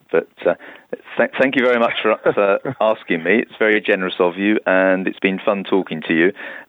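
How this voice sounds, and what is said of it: British university English accent. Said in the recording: “you've got English University English. I've just been had my old accent drummed out of me, and so I speak in this funny way now”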